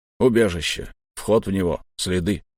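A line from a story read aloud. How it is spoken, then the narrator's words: Mutter. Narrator (Russian): пробурчал долговязый штурмовик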